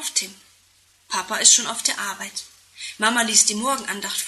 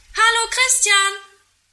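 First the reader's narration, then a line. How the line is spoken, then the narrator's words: Call from window. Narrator (German): ruft er aus dem Fenster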